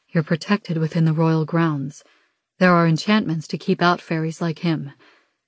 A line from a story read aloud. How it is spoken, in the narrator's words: Dez says